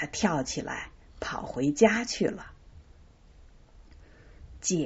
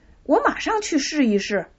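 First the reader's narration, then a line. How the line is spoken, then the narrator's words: Doubtful, smiling. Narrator (Chinese): 巴普利克半信半疑的微笑着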